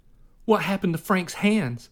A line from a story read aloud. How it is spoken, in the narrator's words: Jonah cried